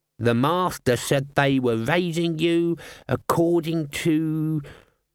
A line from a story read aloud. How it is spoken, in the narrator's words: Albert sneered